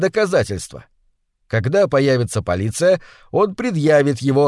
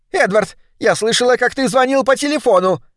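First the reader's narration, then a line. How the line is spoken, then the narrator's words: Shrill. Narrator (Russian): начала она визгливо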